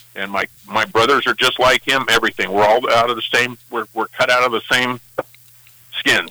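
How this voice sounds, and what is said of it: Angry, agitated tone. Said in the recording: “Are you sound angry? ... people can understand where your anger might be coming from”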